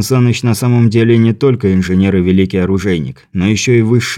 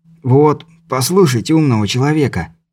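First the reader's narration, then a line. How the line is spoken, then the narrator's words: Rasped. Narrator (Russian): прохрипел Беляев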